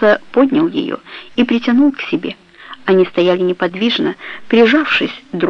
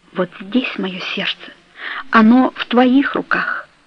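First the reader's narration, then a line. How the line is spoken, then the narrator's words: Whisper. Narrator (Russian): прошептала Каро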